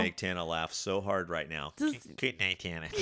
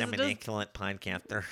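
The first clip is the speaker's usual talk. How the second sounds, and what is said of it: Imitates another person's voice. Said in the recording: “Do your impression. ... It's horrible. ... That's making fun of you.”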